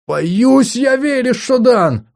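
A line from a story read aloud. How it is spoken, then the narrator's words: Exclamation. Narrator (Russian): воскликнул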